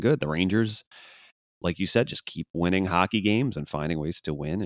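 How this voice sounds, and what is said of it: Slightly hoarse, strained voice. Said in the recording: “my throat is a little hoarse today ... I kind of shredded my vocal cords a bit ... if I'm a little hoarse”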